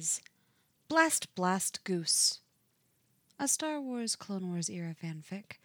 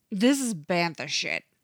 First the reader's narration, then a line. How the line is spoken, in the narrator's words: Thorn snarls